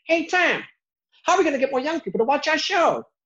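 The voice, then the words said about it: Put-on Boston or New York accent. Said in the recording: “my typical, it's almost like a Boston type accent, like a New York accent”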